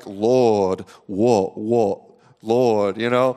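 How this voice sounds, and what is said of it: Put-on New Zealand prayer accent. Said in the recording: “What is that ridiculous accent that you're praying with? ... I learned how to pray from a bunch of Pentecostal Kiwis ... I picked up their accent.”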